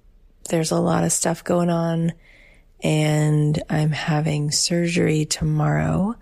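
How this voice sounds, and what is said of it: Subdued, low-energy voice. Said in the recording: “you can probably tell from my voice, I'm not in my usual high vibe, big spirits.”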